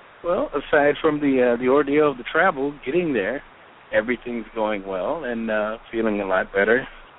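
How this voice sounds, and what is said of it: Slightly raspy voice. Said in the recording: “my voice sounds a little raspy. ... It's just from doing all the yelling and screaming.”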